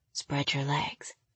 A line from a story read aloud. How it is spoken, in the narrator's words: he whispered